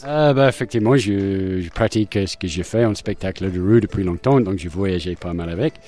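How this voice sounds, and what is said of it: Slight foreign accent in French. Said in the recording (French): “vous avez un petit accent”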